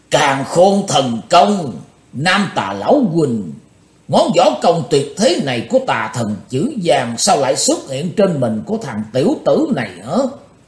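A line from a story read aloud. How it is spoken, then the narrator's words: Old demon roaring. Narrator (Vietnamese): lão ma gầm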